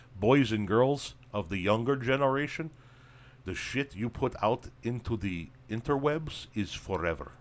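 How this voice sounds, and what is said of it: Goofy put-on accent. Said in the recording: “I don't know why I'm talking with an accent. I'm just feeling goofy right now.”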